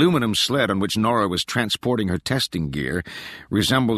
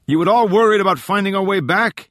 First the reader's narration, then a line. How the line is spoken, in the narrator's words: Tallon yelled